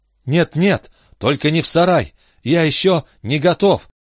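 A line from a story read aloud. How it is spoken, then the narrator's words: Bashful babbling. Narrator (Russian): залепетал Джо со стыдливой улыбкой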